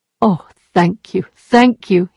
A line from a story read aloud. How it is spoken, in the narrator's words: he cried